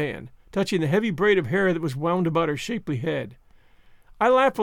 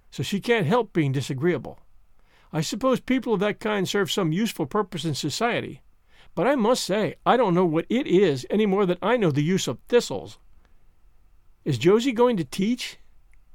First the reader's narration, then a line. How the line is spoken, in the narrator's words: said Marilla sharply